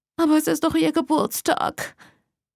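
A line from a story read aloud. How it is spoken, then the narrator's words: Whimpering. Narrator (German): Mom wimmerte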